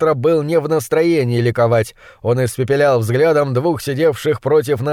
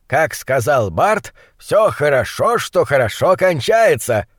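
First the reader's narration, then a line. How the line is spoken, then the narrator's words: Deep voice, feigned joy. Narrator (Russian): пробасил фон Хельрунг, сделанной радостью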